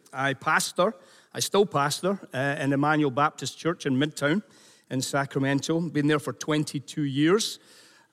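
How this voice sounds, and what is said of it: Scottish accent. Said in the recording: “a Scottish accent ... as soon as I open my mouth in California, people say, "You're not from here." And that's obvious.”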